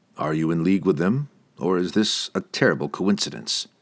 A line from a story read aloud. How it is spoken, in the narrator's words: Drizzt asked dryly